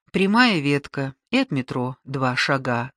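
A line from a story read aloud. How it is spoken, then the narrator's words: Plain. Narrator (Russian): сказала она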